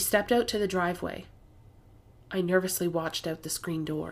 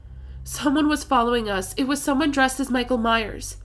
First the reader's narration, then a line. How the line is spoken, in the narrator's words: I yelled